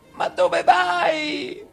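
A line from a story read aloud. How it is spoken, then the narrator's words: Gentleman shouting. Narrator (Italian): gridò il signore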